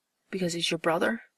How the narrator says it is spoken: He asks, panting

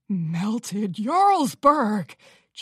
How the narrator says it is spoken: Cheese exclaimed with a satisfied smile

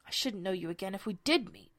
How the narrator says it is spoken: Humpty Dumpty said in a discontented tone

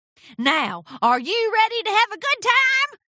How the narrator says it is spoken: hollered

